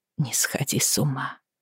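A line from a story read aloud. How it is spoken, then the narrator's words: Tearful whisper. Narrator (Russian): прошептала Бриана, утирая глаза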